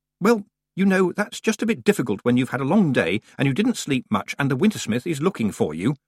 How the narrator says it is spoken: snapped Tiffany

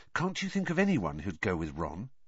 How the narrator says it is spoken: he said, lowering his voice so that Ron wouldn't hear

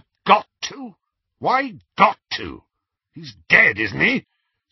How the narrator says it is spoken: said Aberforth roughly

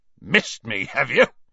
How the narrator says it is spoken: snorted Hagrid

